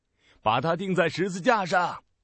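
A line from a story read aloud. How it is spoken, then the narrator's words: Louder shouting. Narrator (Chinese): 他们更大声地喊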